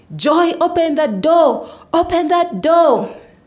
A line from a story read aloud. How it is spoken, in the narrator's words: his brothers joined in, screaming